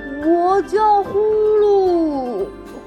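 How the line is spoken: Excited loud shout. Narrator (Chinese): 小猪更来劲儿了，又大声喊

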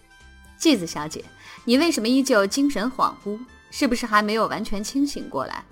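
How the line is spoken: Laughing. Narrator (Chinese): 桂生川笑着说道

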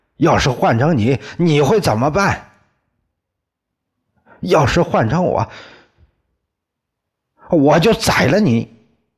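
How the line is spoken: Shouting. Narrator (Chinese): 宋刚冲着李光头喊叫了

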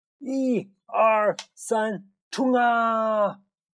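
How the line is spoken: Loud group shout. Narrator (Chinese): 小胖墩儿、鼻涕虫、小刺头、娇气包，卯足了劲儿，齐声的喊

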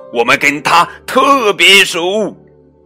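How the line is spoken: Witch, shouting. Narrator (Chinese): 佳琪女巫叫喊着

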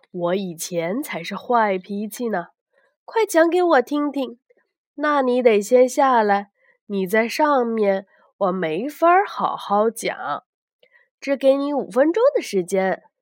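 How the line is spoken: Laughing. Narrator (Chinese): 斯卡洛笑着说

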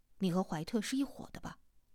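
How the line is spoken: Disgusted, low, in English. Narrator (Chinese): 陈阿南却厌恶的，用英语低声的说

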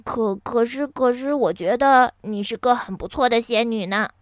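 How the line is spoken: Sniffling mumble. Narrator (Chinese): 哈瓦尔吸吸鼻子，嘟囔着说

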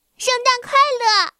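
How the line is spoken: Loud shouting. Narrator (Chinese): 生日小姐就大声的喊着

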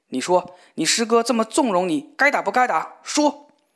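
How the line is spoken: Angry question. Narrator (Chinese): 又怒问

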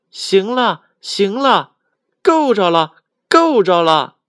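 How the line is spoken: Small monkey shouting from well. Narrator (Chinese): 小猴子，他在井里边喊

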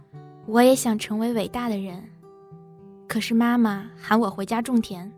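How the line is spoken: Flat, calm. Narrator (Chinese): 张平 淡淡的说

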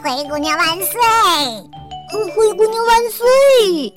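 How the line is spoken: Playful, loud. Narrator (Chinese): 调皮的鸽子和杰克对着人群大声说道

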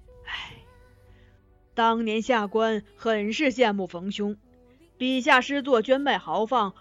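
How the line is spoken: Sighing. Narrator (Chinese): 县令忽又叹道

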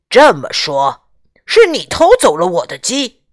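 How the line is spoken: Angry. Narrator (Chinese): 农民愤怒地说

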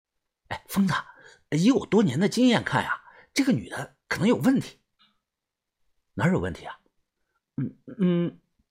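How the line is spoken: Quiet voice. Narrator (Chinese): 豆芽仔小声的跟我说

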